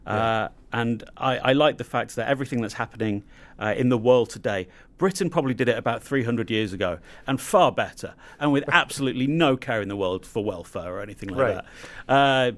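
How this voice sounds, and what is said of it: Non-American English accent. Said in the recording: “as you can probably tell from my accent, I'm not from the United States”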